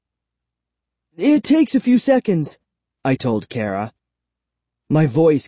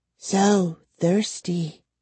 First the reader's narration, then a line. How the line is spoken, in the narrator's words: she whispered